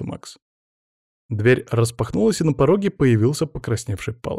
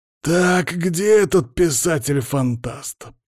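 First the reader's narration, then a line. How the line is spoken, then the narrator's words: Growled, boss. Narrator (Russian): прорычал наш босс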